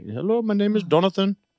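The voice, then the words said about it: Put-on thick Indian accent. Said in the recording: “like a real thick Indian accent”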